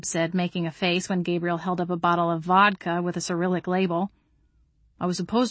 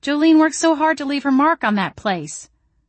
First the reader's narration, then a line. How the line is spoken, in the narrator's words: I exclaimed